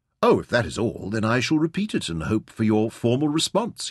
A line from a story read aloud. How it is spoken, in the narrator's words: he said